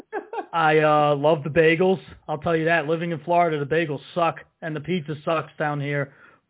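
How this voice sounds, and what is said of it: New Jersey accent. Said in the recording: “I get told that I have an accent. I sound like I'm in the mafia.”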